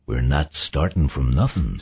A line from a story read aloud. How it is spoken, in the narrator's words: Saul said softly